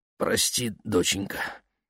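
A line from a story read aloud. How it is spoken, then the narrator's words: Muffled mumble. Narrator (Russian): пробормотала она сквозь тряпку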